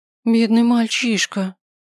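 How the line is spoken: Sympathetic sigh. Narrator (Russian): вздохнул кто-то сочувственно

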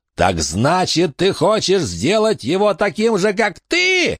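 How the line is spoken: Shrieking. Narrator (Russian): завизжал Джон

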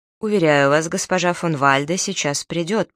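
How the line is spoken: Repeated statement. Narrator (Russian): повторил он

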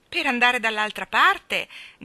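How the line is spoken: Shouted together. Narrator (Italian): gridarono Jane e Michael

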